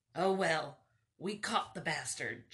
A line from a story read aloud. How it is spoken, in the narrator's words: Johnny said in his gravelly voice